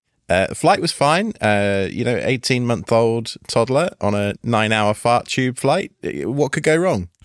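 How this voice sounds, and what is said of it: Tired, slightly croaky voice. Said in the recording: “You probably hear it in my voice. I'm a little tired right now. ... Yeah, I can hear it. You got a little bit of that frog.”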